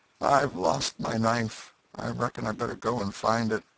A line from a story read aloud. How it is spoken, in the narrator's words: Joe said feebly